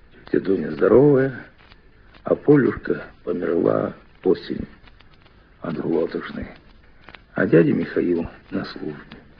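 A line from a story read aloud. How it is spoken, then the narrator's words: Quiet answer. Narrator (Russian): Мишатка тихо ответил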